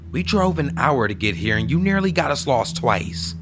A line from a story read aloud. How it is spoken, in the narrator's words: she said angrily